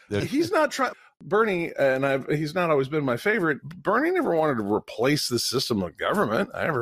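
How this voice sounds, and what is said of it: Usual voice. Nothing is said of it.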